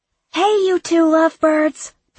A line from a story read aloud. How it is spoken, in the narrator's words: Piper shouts from inside the patio door